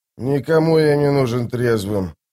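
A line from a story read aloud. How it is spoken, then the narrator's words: Grumbling. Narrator (Russian): пробурчал Остряк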